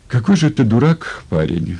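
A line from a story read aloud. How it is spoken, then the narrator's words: Sad and simple. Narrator (Russian): Грустно и просто сказала она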